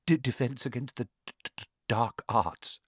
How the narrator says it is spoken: muttered Professor Quirrell, as though he'd rather not think about it

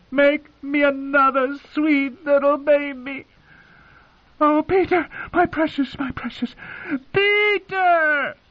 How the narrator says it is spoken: Her last shriek was so loud that it set the dogs to barking

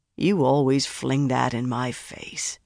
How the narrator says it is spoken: he sighed

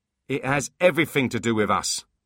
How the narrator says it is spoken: snapped Foley

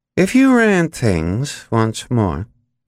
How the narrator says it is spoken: McRae drawled reflectively

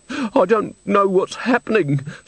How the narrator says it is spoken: sobbed Mrs

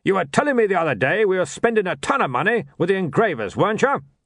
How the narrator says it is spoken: he barked

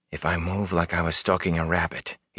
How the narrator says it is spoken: he whispered to himself

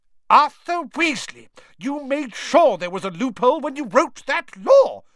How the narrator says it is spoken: shouted Mrs

